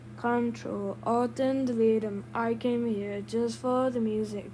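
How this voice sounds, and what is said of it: Deliberately terrible singing voice. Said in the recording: “I'm not actually trying to sing. So I'm doing a terrible singing voice.”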